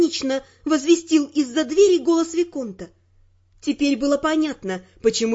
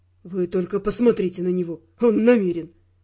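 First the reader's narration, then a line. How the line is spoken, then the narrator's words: Mutter. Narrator (Russian): пробормотал Раймонд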